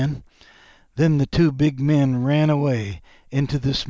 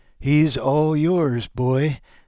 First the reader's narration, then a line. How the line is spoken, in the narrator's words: said, laughing